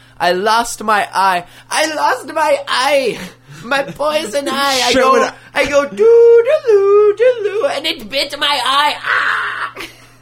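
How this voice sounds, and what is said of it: Imitates a prank-call character voice. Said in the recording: “my impression wasn't spot on, but that was pretty fucking good ... The prank call, the jerky boys”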